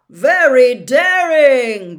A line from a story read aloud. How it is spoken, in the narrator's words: Bagman was yelling